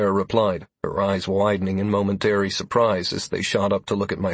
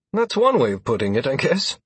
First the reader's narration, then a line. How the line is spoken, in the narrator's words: I replied with a snort